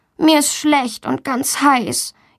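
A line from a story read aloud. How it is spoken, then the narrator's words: Whining. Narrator (German): jammert Valentina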